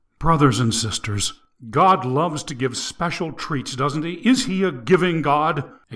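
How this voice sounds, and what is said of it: Low, intimate voice. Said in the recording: “His voice got low and personal.”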